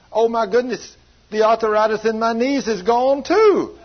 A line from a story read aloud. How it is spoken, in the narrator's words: as she's screaming, saying she's healed, then she started hollering